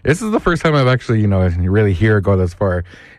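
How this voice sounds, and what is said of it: Raspy, strained voice. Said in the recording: “as you can tell, I'm still kind of recovering. My voice is not 100%. I can feel it. I can hear it ... I've lost my voice ... the more I talk, the more you can hear it start to get raspy”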